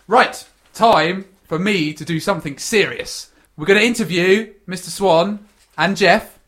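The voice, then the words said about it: English accent. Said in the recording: “I love your English accent ... This is us talking our English accents.”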